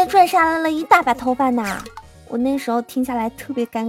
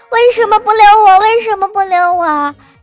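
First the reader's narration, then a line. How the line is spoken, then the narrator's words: Wailing, sobbing. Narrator (Chinese): 一直哭喊说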